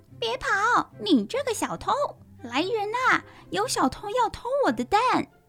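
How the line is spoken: Hen screaming. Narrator (Chinese): 突然听到母鸡大叫

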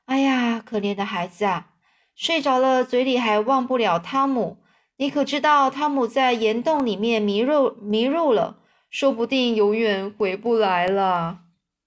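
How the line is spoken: Sighing, to herself. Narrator (Chinese): 道格拉斯太太叹了一口气，自言自语的说

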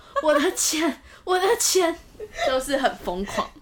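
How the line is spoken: Sighing. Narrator (Chinese): 开始叹气说

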